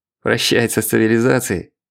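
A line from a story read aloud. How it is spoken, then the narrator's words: Snorting. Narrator (Russian): хмыкнул старший инспектор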